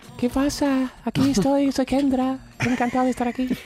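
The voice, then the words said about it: Man putting on a woman's voice. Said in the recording (Spanish): “pongo voz de mujer”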